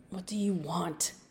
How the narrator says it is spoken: Gareth whispered

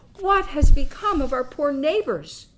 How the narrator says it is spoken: cried these kind-hearted old people

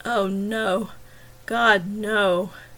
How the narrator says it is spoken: he moaned

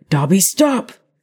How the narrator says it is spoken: Harry yelled

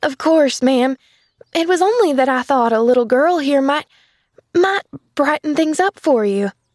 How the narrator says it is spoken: she faltered

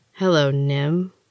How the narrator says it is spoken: Rhea said with a bit of a sneer

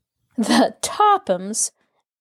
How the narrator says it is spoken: Alice laughed scornfully

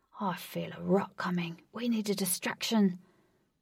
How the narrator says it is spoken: Ajax whispered to Wraith

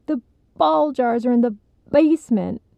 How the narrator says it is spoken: Alicia's mom shrieked

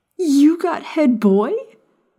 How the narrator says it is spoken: Maya yelled excitedly

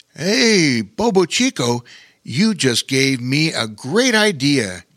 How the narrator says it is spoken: he said excitedly

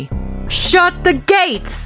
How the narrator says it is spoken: yelled

